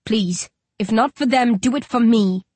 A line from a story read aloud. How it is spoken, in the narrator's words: I growl